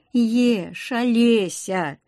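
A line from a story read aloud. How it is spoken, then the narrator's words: Sighed. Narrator (Russian): вздохнул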